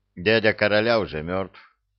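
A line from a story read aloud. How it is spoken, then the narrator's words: Cold, emperor. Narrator (Russian): холодно сказал император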